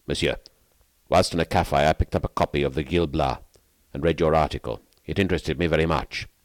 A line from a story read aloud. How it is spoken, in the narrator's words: he said to me, in a rough voice that confirmed my suspicion as to his social position